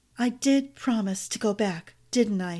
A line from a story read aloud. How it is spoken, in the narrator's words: she whispered, more to herself than to Fang